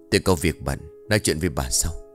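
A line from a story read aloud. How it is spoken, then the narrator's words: Whisper. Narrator (Vietnamese): Ông thì thầm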